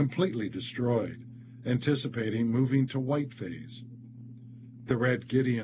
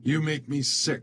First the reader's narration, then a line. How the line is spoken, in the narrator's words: yells